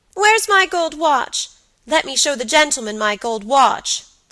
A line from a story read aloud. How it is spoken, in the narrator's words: cried Georgie